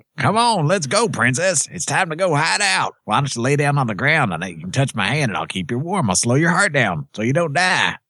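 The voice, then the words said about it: Redneck robot character voice. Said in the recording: “A.K.A. the Redneck Robot ... That was a very good impression ... That was the best impression you've ever done”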